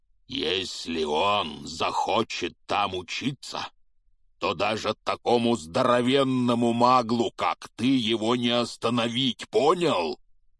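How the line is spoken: Growling. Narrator (Russian): прорычал Хагрид

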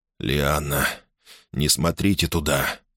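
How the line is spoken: Hoarse voice. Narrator (Russian): хрипло произнес Гордон

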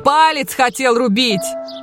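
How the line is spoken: Shouted. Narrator (Russian): крикнул он

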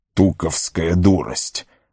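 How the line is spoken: Annoyed grumbling. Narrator (Russian): с досадой проворчал Гэндальф

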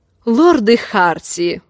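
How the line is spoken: Snorted. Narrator (Russian): фыркнул Лин

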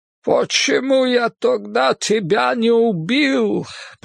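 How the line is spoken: Groaned. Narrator (Russian): простонал он

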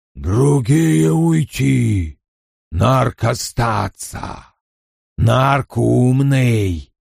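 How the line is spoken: Creature speaking. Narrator (Russian): Тварь сказала

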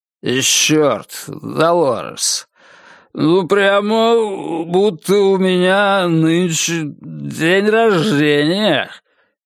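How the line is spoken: Hoarse, slurred drunken voice. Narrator (Russian): говорит он, а голос у него уже сиплый, язык заплетается

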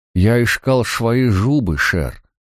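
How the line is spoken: Desperate toothless mumble. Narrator (Russian): прошамкал незнакомец, в отчаянии

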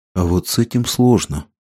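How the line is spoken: Old lady sighing. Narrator (Russian): вздохнула старая дама

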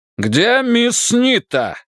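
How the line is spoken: Shouted. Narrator (Russian): крикнул Кенлис

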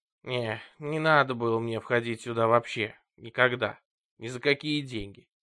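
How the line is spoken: Grumbled. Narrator (Russian): проворчал Вуди

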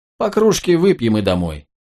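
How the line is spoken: Snorting chuckle. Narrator (Russian): Клей хмыкнул

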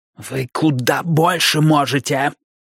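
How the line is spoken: Hissing up close. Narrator (Russian): прошипел Бидвилл, приблизив лицо к доктору почти вплотную

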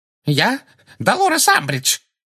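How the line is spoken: Shrill, terrified voice. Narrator (Russian): ответила Амбридж визгливым, насмерть перепуганным голосом

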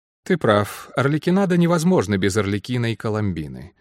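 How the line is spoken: Dry agreement. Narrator (Russian): сухо согласилась Анна Денман

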